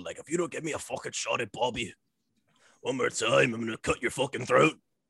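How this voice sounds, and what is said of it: Imitates another person's voice. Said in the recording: “good Drew impression”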